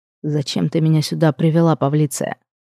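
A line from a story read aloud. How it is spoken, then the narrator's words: Suddenly menacing question. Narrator (Russian): Неожиданно грозно спросил Амадин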